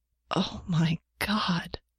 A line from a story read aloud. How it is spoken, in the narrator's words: Janet gasped